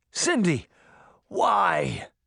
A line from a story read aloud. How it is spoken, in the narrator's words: he cried, though his voice sounded weak and tired